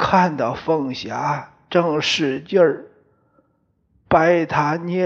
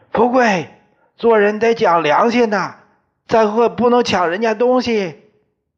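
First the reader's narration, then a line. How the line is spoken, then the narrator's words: Shouting. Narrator (Chinese): 王四对我喊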